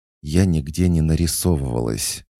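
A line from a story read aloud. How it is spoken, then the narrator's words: Through clenched lips. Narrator (Russian): процедила она сквозь плотно сжатые губы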